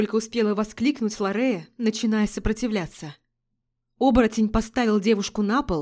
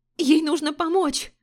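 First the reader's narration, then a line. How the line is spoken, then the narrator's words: Shouting. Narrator (Russian): закричала Триада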